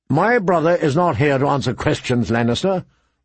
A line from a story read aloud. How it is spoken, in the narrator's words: Rob said curtly